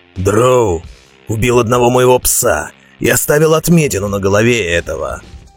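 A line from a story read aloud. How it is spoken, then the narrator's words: Hoarse. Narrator (Russian): Прохрипел Роди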